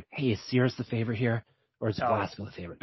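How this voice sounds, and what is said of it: Whispering. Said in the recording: “I'm gonna whisper to Dan.”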